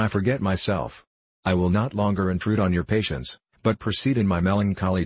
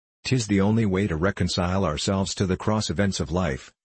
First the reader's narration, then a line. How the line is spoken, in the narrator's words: replied